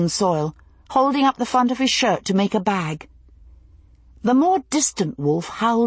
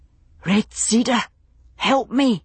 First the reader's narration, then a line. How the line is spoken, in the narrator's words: he gasped, the Ganyangahaga coming to his lips